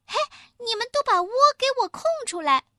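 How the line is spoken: Loud calling. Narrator (Chinese): 歪关子小母鸡大声叫着

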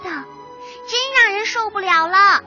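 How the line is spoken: Noisy chirping baby birds. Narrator (Chinese): 鸟宝宝叽叽喳喳的乱叫

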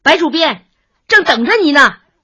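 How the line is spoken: Calling out from afar. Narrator (Chinese): 小黄老远看见他就叫

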